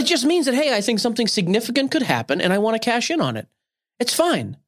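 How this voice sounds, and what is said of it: Usual voice. Nothing is said of it.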